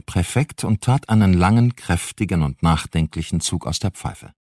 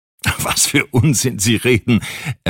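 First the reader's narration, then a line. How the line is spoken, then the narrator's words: Laughing reply. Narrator (German): erwiderte der Präfekt lachend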